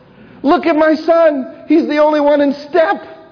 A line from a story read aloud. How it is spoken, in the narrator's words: my mom yells out